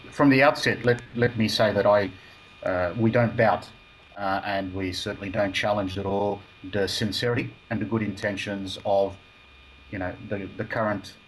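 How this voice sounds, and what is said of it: Broad Australian accent. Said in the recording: “my broad Australian accent”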